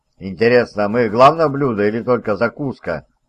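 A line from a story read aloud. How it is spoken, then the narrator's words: Plain. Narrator (Russian): спросил Джон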